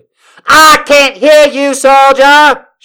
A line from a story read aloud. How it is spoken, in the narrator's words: she yells